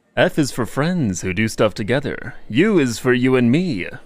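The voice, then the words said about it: Suave SpongeBob impression. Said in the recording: “Now I gotta try and do Suave SpongeBob.”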